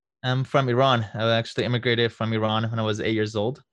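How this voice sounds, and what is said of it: Slight foreign accent. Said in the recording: “you have a little bit of an accent”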